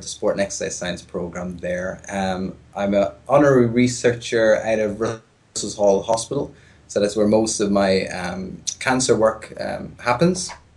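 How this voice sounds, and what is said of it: Irish accent, softened phone voice. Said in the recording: “if nobody has been able to tell from the accent so far, I am Irish, not Canadian or American or Australian ... this is my Irish phone voice”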